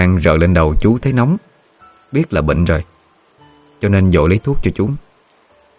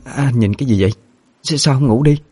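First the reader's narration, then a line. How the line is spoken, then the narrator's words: Stammering woman. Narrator (Vietnamese): Cô lắp bắp nói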